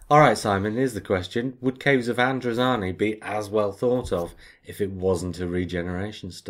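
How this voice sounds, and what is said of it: Usual voice. Nothing is said of it.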